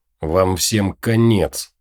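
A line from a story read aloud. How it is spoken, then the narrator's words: Hissed. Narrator (Russian): прошипел он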